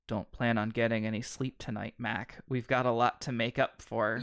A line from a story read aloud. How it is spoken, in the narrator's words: hear him murmur